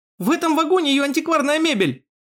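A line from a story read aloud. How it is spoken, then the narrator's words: Sudden shout. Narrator (Russian): вдруг выкрикнул Герхард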